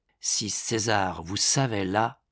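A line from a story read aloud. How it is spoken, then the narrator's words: Murmuring. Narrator (French): murmura Raphaël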